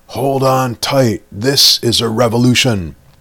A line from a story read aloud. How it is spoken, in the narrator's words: Driver hollered back